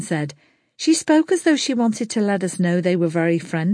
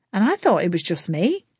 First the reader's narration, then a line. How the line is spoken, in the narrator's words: Lana chuckled